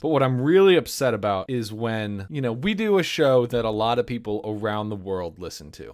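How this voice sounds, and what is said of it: American English accent. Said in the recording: “know from my accent without asking that I am an American ... my American English dialect”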